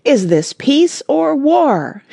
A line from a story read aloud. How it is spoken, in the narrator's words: shouted the French captain